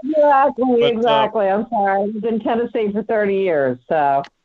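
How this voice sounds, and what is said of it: Mixed American regional accent. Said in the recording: “notice that accent, you know, and it's not a New York accent either ... I think there's a mix ... that upper state New York type of, you know, vibe”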